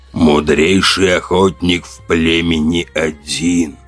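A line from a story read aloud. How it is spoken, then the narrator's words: Creaky voice. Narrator (Russian): проскрипел он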